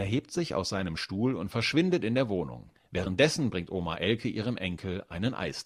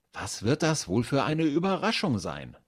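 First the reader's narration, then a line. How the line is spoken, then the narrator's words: Excited, jittery wondering. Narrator (German): fragt sich Finn aufgeregt und wird ganz hibbelig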